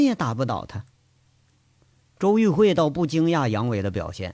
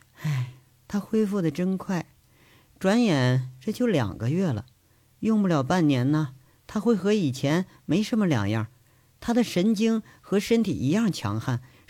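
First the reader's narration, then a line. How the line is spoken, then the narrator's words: Sighing. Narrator (Chinese): 她只是叹了一句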